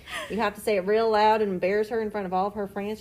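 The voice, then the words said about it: Put-on Western accent, loud. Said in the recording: “her favorite accent is a Western accent. You have to talk like this.”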